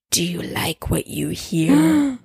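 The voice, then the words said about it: Deep menacing voice. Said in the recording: “a deep voice said out of the darkness”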